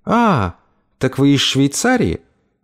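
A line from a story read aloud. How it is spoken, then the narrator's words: Very courteous tone. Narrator (Russian): Мэгги произнесла это самым любезным тоном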